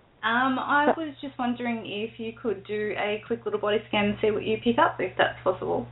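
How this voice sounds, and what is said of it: Australian accent. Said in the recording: “It sounds like an Australian accent. ... It is an Australian accent.”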